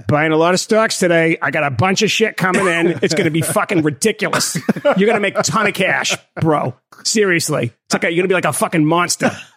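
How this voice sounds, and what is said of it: Put-on Boston accent. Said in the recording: “You should do it in like masshole accent entirely.”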